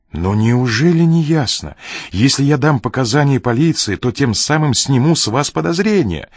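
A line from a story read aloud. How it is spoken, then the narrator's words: Exclaimed. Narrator (Russian): воскликнул Ренли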